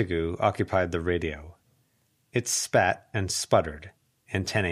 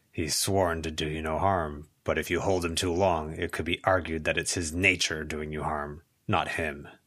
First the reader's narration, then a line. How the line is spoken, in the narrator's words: Charles growled